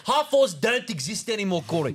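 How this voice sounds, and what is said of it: Put-on South African accent. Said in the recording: “Can you do that in a South African accent?”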